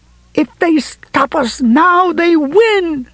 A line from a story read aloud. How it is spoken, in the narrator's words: she screamed